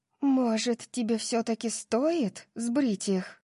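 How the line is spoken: Whisper. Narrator (Russian): прошептала Тори

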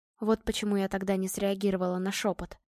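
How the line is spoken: Quiet. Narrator (Russian): тихо проговорила Ева

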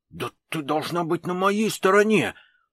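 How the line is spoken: Stubborn hiss. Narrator (Russian): упрямо зашипел Коротченко

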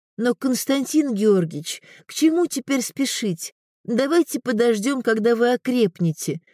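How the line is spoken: Timid. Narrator (Russian): робко сказала она

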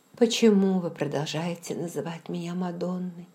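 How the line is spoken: Plain. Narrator (Russian): спросила я

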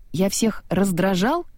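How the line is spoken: Indignant question. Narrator (Russian): возмущенно спросил Виржил

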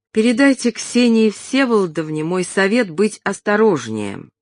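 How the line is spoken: Plain. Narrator (Russian): сказал Шура

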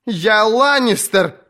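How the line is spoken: Captive woman shouting. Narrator (Russian): кричала пленница

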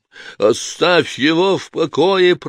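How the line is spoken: Roared. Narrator (Russian): проревел Клай

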